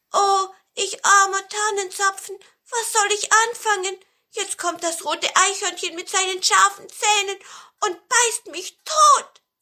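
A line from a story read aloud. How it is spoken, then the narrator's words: Calling out. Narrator (German): der Tannenzapfen rief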